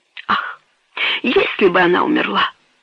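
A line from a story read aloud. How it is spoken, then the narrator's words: Whisper. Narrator (Russian): прошептал герцог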